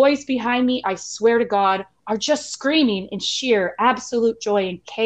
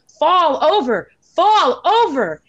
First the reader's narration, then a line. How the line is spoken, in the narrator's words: I am screaming